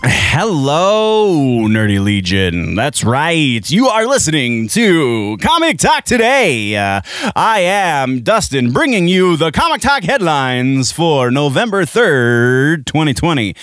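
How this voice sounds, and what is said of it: Announcer-style voice. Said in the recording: “announcer voice”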